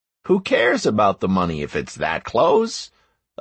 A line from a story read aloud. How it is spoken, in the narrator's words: I said cheerfully, though inside I was very disappointed